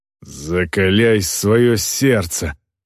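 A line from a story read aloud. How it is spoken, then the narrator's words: Female orc growl. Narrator (Russian): прорычала на него орка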